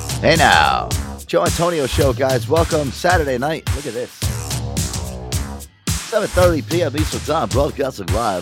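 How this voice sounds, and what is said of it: Exaggerated radio announcer voice. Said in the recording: “I'm doing my radio nothing voice.”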